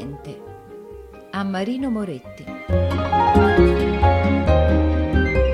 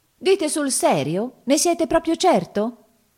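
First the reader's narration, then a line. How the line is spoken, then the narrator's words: Exclaiming. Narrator (Italian): esclamò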